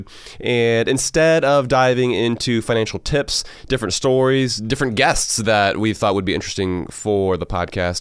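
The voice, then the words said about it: Hoarse voice from a cold. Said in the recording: “does my voice sound hoarse to you? ... Sounds a little off. ... Battling a little bit of a cold here.”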